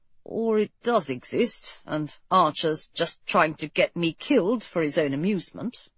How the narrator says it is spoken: Edward said grimly

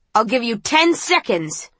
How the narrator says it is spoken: the woman shouts

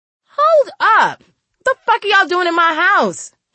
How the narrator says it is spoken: she screamed

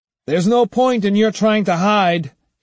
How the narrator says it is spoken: he shouted

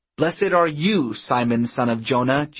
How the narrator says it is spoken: Jesus exclaims

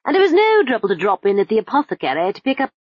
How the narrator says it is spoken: he began, smiling brightly

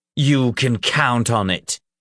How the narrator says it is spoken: Ulfgar growled

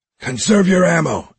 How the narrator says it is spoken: X yelled

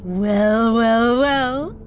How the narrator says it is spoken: the sapient rumbled

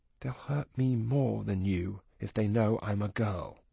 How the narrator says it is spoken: She added then in a small voice

